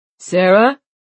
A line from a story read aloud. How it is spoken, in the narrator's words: Oisin called out